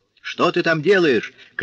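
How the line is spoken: Shout. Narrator (Russian): крикнул Курфейрак

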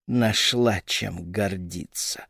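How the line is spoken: Venomous hissing inner voice. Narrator (Russian): шипел ядовитый голосок в голове

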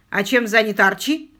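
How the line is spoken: Stern question. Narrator (Russian): строго спросил Квиллер

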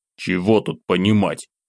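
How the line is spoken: Sullen snort. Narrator (Russian): угрюмо хмыкнул я

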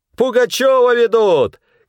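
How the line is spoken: Shouting. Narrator (Russian): кричал он

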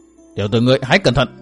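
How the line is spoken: Stern voice. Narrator (Vietnamese): Hận Thiên nghiêm giọng

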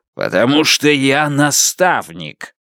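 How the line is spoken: Growling. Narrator (Russian): звон прорычал

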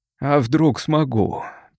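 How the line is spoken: Wary creaky voice. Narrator (Russian): проскрипел Хэлс, не теряя бдительности

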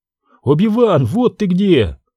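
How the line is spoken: Exclaimed. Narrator (Russian): воскликнул Джоно

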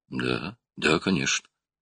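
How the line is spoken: Frightened mutter. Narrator (Russian): пробормотал Кулум, напуганный его грозным тоном

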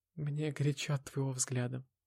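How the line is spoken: Mumbled. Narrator (Russian): пробормотала Валерия

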